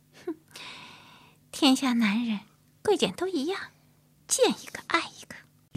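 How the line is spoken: Scoffing laugh. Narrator (Chinese): 阿红撇嘴笑着说

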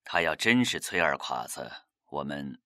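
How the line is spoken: Sigh. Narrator (Chinese): 萧剑南不禁叹了口气

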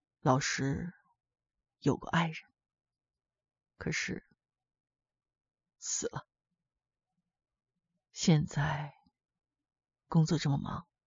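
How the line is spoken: Soft voice. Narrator (Chinese): 李老师 轻声地说

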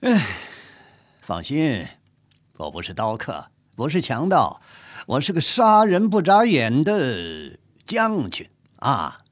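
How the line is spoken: Amused. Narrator (Chinese): 海兰察倒觉得好笑，说

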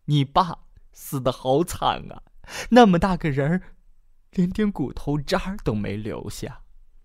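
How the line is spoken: Wailing. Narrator (Chinese): 母亲嚎啕大哭

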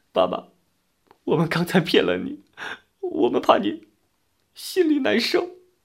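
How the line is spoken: Children bursting into tears. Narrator (Chinese): 两个孩子 哇的一声都哭了

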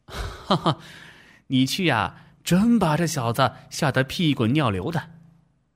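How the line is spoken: Laughing. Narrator (Chinese): 陈建也笑了

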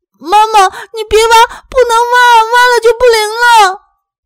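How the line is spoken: Crying shout. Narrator (Chinese): 一直不吭声的亮亮…哭着喊

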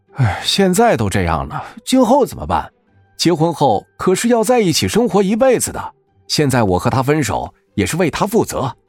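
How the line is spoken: Wry, bitter smile. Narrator (Chinese): 彭庄苦笑着说道

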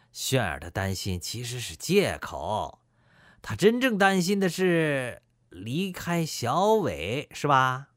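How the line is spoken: Laughing. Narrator (Chinese): 大囧笑着说

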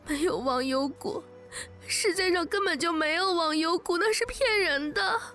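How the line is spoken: Choked, sobbing shout. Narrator (Chinese): 我哽咽着对他喊

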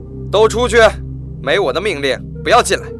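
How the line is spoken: Loud barking command. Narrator (Chinese): 池田向手下人大声喝道

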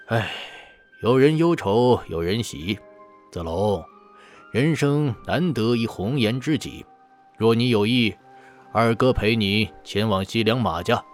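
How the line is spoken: Sighing. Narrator (Chinese): 关羽抚须叹息

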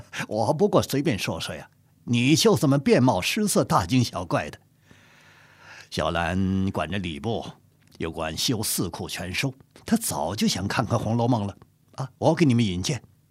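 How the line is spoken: Laughing. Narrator (Chinese): 阿贵笑着说

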